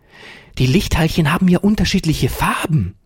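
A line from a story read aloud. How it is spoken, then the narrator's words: Excited cry. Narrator (German): rief Ferdinand aufgeregt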